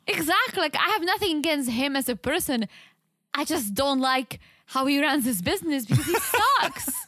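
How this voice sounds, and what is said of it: Heavy foreign accent. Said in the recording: “my heavy accent keeps coming back ... This one especially.”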